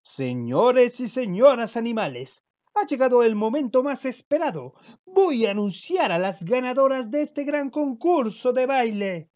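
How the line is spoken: Toad exclaiming. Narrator (Spanish): exclamó el sapo

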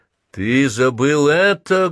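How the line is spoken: Loud shout. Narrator (Russian): громко выкрикнул он

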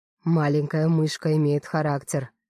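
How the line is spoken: Purring like a cat. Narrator (Russian): продолжает мурлыкать, как огромный кот Градов

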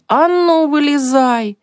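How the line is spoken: Shouting. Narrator (Russian): Он закричал

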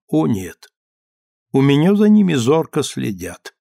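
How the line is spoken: Strange tone. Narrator (Russian): Он сказал довольно странным тоном

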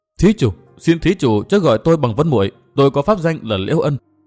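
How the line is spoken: Tearful trembling voice. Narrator (Vietnamese): Thượng Tiểu Vân, đôi dòng lệ rưng rưng chảy, cất giọng run run

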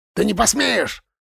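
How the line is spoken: Angry bark. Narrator (Russian): рявкнул Бен в ответ, сжав кулаки

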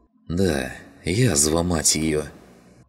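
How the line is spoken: Sigh. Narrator (Russian): Вздохнул Клим

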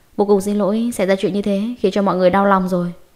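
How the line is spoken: Smiling apology. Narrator (Vietnamese): Hạ Tuyết mỉm cười xin lỗi

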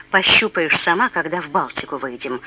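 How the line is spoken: Insinuating grumble. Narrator (Russian): буркнул не без намека

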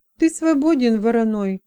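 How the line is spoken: Sad. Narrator (Russian): грустно проговорила Мона Сения

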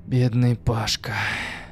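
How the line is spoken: Sighing. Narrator (Russian): вздохнул Макс

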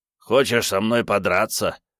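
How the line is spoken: Scoffing. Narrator (Russian): хмыкнул он

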